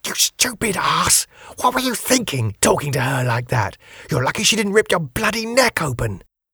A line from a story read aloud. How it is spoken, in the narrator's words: Cynthia said in a harsh whisper